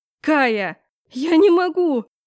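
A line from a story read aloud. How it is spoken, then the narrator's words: Bitter tearful cry. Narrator (Russian): горько выкрикнула, по щекам потекли слезы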